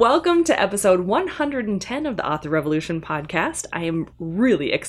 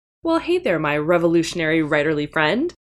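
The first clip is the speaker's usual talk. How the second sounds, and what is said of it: Very fast speech. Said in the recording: “say that really fast”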